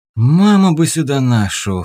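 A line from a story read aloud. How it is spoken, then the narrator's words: Sighing. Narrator (Russian): вздохнул он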